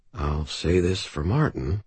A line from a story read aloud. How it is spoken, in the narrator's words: I muttered